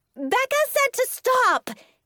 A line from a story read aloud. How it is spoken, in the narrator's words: yelled